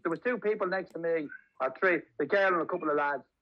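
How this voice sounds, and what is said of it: Irish accent. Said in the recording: “Your accent is Irish. I said, yeah.”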